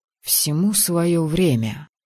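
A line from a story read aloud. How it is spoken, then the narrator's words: Quiet. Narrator (Russian): тихо произнес Мэтт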